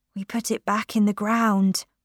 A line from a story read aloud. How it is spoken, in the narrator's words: I whispered